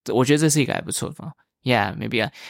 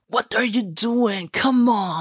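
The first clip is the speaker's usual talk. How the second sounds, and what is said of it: Imitates a movie character's accent. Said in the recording (Chinese): “模仿这些人的讲话 ... imitate their speaking accent ... You roleplay the characters”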